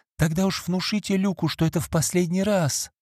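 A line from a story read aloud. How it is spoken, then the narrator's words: Pleading. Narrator (Russian): взмолилась Фиби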